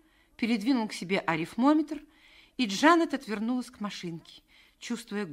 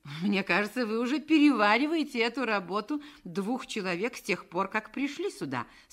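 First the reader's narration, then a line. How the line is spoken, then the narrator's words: Plain. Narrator (Russian): сказал он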